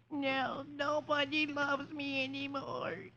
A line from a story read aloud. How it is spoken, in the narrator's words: he cries